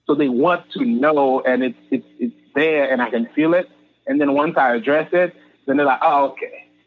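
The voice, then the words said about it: Haitian accent. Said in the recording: “I have a couple of jokes about being from Haiti, being a Haitian ... we can tell there's an accent”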